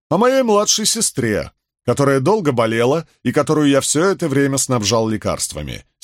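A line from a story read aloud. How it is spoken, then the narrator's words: Angry grumbling. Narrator (Russian): сердито проворчал Бидвелл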